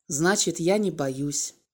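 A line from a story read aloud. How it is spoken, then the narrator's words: Quiet reply. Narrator (Russian): негромко ответил Володя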